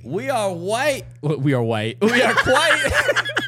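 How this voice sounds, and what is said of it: Stu Gotz impression. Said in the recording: “What a Stu Gatz impression.”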